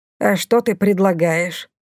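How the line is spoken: Grumbling. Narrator (Russian): проворчала Бумба

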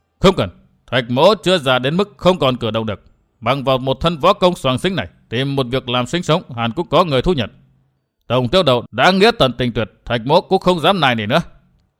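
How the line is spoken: Angry. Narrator (Vietnamese): tức giận

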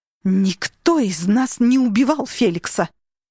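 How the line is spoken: Growl. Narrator (Russian): прорычала Татьяна

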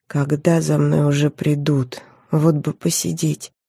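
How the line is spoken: Quiet. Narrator (Russian): тихо сказала

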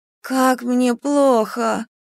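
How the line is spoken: Moaning. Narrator (Russian): Простонала одна из студенток

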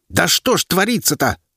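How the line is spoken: Furious bark. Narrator (Russian): гаркнул он, бешено вращая глазами

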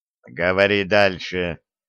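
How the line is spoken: Calm command. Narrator (Russian): спокойно приказал Доннер

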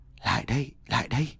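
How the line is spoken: Whispered call. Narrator (Vietnamese): một tiếng gọi thì thầm

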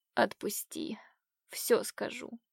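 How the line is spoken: Exhausted whisper. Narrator (Russian): обессиленно прошептала

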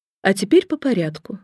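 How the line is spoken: Plain. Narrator (Russian): сказала она

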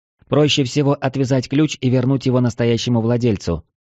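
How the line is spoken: Plain. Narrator (Russian): сказала Елена

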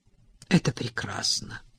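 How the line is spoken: Whisper. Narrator (Russian): прошептала она, чувствуя, как пальцы Дерри впились в ее ягодицы

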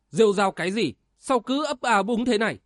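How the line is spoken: Impatient woman shouting. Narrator (Vietnamese): Kim Xà phu nhân nóng ruột quát lên

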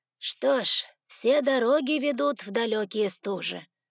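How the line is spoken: Breathed out. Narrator (Russian): выдохнул Артас

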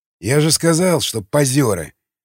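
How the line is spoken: Quiet ogre mutter. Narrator (Russian): тихо пробормотал людоед

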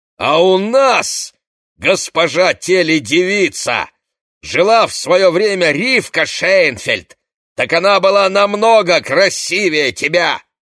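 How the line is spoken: Old man's furious loud shout. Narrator (Russian): деревенский попиш, а он уже очень стар, крикнул яростно и громко

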